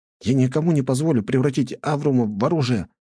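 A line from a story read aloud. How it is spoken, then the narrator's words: Boy exclaiming. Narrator (Russian): воскликнул мальчишка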